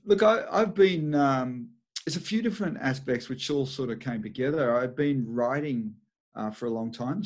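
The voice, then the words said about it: Australian accent. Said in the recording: “Love your accent... all the way from Sydney, Australia”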